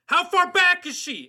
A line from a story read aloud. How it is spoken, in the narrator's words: I shouted